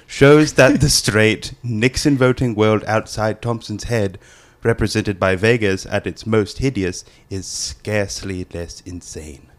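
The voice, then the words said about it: Reads blurb in put-on accent. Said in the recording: “That was a great accent. ... Very good accent.”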